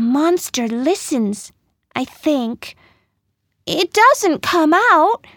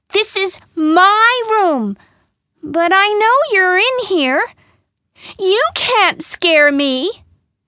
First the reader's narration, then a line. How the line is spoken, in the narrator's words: say very loudly